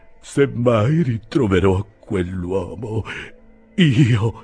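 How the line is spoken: Slow, solemn, breathless. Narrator (Italian): Ansimando e imporporandosi fin sopra le punte degli occhiali, disse lento e solenne

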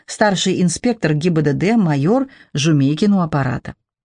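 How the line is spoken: Unpleasant male voice, phone. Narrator (Russian): в телефоне противным мужским голосом прожурчало

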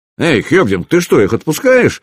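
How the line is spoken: Exclaimed. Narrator (Russian): воскликнул Скиди

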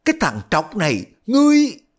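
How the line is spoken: Shout. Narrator (Vietnamese): Y mới la lên

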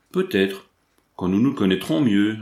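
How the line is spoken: Replied coldly. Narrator (French): répondit froidement Prémontier

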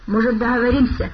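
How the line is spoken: Hoarse speech. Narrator (Russian): хрипло проговорил он

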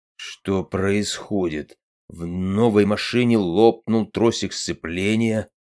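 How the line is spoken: Muttering. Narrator (Russian): пробормотал Влад

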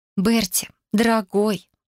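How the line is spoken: Sweet singsong. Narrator (Russian): ласково пропела я

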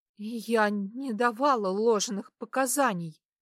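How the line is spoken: Trembling voice. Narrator (Russian): произносит она дрожащим голосом

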